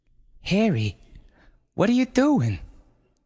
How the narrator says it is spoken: gasped Brenda

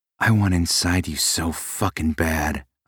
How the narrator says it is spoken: I growled

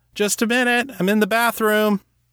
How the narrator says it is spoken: shouted

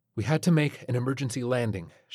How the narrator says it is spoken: she panted

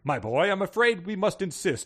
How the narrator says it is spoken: Emperor William chuckled

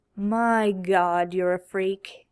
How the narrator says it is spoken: Dean groaned

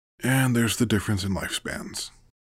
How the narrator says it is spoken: Sheila mumbled

